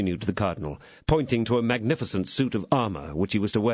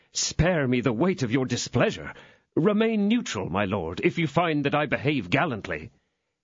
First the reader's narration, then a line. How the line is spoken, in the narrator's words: exclaimed D'Artagnan